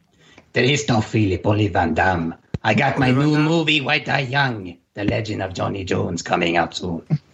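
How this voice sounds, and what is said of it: Imitates another person's voice. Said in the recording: “doing an impression of me ... I was doing Christopher Lambert, not you, Van Damme”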